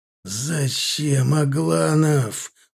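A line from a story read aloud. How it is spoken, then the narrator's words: Moaning. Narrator (Russian): простонал Милар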